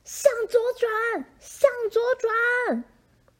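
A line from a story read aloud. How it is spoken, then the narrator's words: Screaming. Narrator (Chinese): 我尖叫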